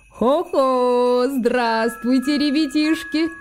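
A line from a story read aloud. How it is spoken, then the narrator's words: Deep bass voice. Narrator (Russian): пробасил он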